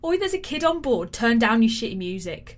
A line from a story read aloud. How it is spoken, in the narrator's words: So I shout to him